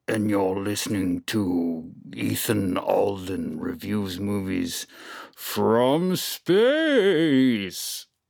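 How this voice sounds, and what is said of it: Bad Darth Vader impression. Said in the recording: “That was a really bad Darth Vader impression”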